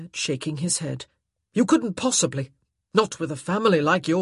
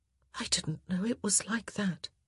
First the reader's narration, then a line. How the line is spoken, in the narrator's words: she whispered